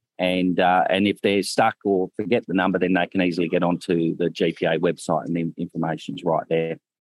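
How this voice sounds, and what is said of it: Australian accent. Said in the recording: “my accent ... It's a good one ... an Australian farmer”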